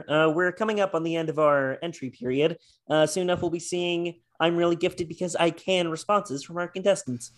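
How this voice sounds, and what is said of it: Kermit the Frog puppet voice. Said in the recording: “do an impression of Kermit the Frog ... That was beautiful.”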